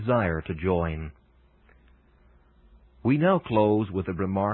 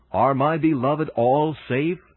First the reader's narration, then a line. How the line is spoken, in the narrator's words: The voice of God exclaims